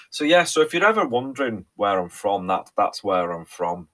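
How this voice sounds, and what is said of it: Mixed, all-over-the-place accent. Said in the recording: “accent, yeah, absolutely, it's properly all over the place”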